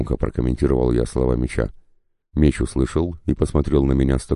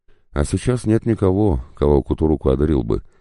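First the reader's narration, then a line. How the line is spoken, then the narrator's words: Calm, matter-of-fact reply. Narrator (Russian): спокойно ответил меч, как будто сказал, что хлеба нет, надо сходить в магазин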